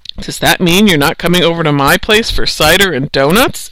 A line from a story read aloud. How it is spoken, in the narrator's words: asked Mrs